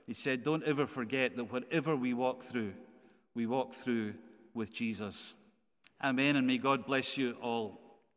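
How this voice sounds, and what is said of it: Scottish accent. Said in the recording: “that beautiful Scottish accent”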